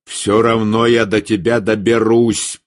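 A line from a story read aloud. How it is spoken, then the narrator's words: Growled. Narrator (Russian): прорычал Эрик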